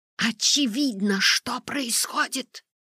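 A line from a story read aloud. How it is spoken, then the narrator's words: Near hiss. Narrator (Russian): почти шипела доктор Оленский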